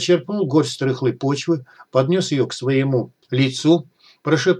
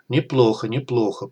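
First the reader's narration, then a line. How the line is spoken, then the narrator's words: Mage mumbling. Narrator (Russian): пробормотал маг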